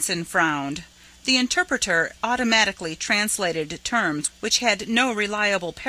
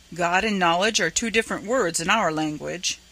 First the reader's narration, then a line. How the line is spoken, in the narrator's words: said